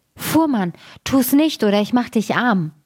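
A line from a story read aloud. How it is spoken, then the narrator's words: Called out. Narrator (German): rief er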